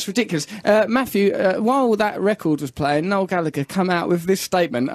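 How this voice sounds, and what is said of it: Usual voice. Nothing is said of it.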